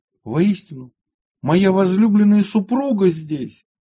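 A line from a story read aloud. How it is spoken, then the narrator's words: Exclamation. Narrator (Russian): воскликнул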